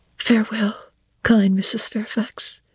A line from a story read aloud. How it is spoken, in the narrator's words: I whispered